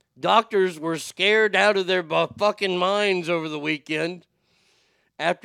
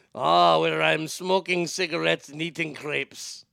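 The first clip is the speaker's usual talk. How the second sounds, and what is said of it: Put-on French accent. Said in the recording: “we have to go overseas to France. Oh, oui, oui. ... I am going to use the accent.”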